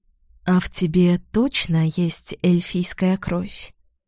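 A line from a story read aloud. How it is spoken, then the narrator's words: Purring young woman. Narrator (Russian): промурлыкала девушка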